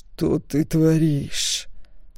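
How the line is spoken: Hiss through teeth. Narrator (Russian): сквозь зубы прошипел Стоун

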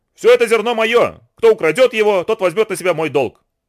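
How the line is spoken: Shout. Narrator (Russian): крикнул

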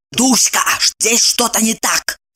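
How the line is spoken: Hissing. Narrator (Russian): прошипела она

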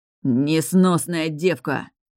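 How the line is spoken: Man spitting angrily. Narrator (Russian): Зло выплюнул мужчина

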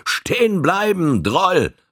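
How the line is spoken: Called out. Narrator (German): rief seinem Vorläufer zu

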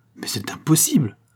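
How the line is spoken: Cry. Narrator (French): s'écria Don José

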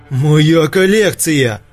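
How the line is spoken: Roared. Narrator (Russian): взревел Сейд

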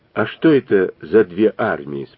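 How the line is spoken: Plain question. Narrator (Russian): спросила Люся

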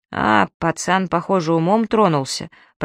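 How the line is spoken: Muttered under breath. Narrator (Russian): пробормотал себе под нос Фан девятый

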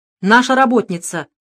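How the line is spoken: Clipped. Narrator (Russian): отрывисто произнес Русаков

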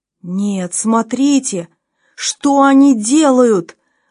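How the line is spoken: Admiring exclamation. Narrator (Russian): воскликнул с восхищением Кохран

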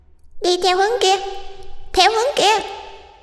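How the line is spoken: Shrill ghostly chorus. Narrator (Vietnamese): Lũ ma trời trên tường lại rít lên the thé, rồi đồng thanh nói

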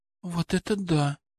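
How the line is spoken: Admiring whisper. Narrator (Russian): не удержалась от восхищенного шепота Борисова

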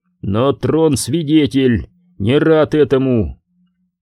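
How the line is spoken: Sighing lord. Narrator (Russian): Железный владыка вздохнул

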